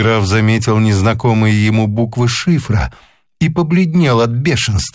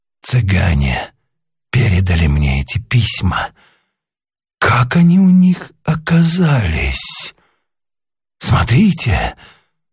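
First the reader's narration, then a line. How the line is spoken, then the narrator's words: Ingratiating voice. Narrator (Russian): вкрадчивым голосом сказал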